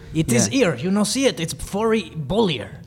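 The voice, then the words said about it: Put-on foreign accent. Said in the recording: “No, he said ear, not here. Yeah, it's that accent.”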